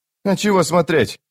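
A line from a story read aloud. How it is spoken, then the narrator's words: Snapped. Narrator (Russian): огрызнулся Крокус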